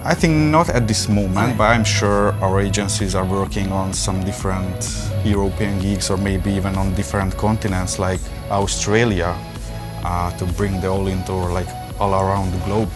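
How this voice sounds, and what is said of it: Hungarian-accented English. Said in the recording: “you don't have an American accent ... I'm from Hungary ... not Kazakhstan like Borat, but I know I sound like Borat”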